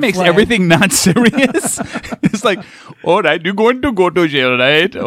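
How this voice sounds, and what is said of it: Usual voice. Nothing is said of it.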